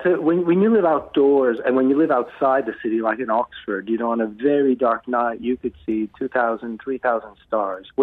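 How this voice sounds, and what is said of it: Northern Hemisphere accent. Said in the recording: “you can hear from my accent, I was born and raised in the Northern Hemisphere”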